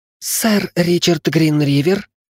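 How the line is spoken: Hissing from above. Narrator (Russian): прошипели откуда-то сверху

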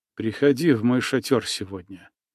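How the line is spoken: Excited whisper, barely controlled. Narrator (Russian): едва уняв волнение, прошептал Иван

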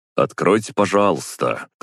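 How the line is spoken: Loud. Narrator (Russian): громко сказал я

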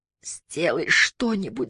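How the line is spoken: Sobbing. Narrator (Russian): зарыдала она

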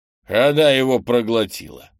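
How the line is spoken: Snorting chuckle. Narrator (Russian): хмыкнул Крис

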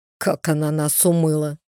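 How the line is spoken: Sudden smirking grunt. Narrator (Russian): вдруг хмыкнул Брейд

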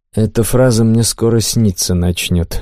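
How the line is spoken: Sighing reply. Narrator (Russian): вздохнул я, но ответил

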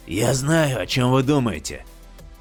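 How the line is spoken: Hoarse. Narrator (Russian): хрипло сказал Вэй Стивенс

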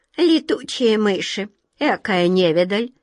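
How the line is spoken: Shrill thin giggle. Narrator (Russian): хихикнул кто-то пронзительно и тонко

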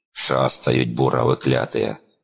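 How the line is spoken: Grumbling, strong Ukrainian accent. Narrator (Russian): проворчал он с сильным украинским акцентом

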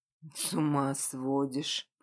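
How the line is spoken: Barely audible wheeze. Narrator (Russian): прохрипел еле слышно

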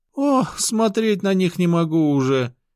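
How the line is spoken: Moaning. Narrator (Russian): простонала Мария

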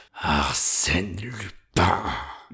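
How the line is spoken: Crushed murmur. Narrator (French): murmura, effondré

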